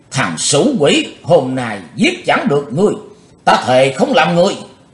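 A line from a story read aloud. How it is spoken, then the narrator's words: Ferocious roar. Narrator (Vietnamese): hung tợn khác thường, Cù Như Trụ gầm vang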